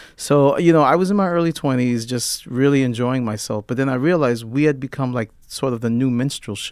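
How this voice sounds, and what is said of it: Usual voice. Nothing is said of it.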